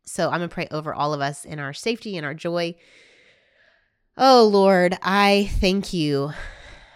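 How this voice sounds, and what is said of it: Congested voice with a cold. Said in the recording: “If you couldn't tell, I have a little bit of a cold”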